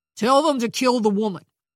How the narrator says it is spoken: snapped

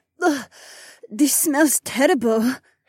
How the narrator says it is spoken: Haywan choked

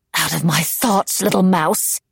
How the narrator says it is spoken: she snarled

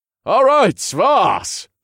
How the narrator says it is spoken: hollered as I ran toward her

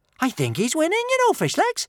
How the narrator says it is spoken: chirped Kamikaze

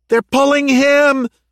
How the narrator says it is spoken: she screamed

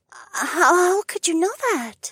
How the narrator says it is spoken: Elzara gasped

